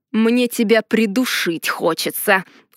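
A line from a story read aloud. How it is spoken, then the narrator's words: Growling. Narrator (Russian): рыкнул Ардар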